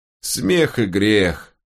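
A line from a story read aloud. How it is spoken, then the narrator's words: Embarrassed sigh. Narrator (Russian): повторил Тилорн и смущенно вздохнул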